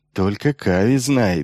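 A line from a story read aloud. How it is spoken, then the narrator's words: Giggling. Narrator (Russian): хихикнул Метцев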